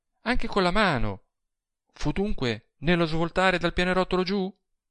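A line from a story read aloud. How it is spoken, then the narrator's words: Exclaimed. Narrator (Italian): esclamò ella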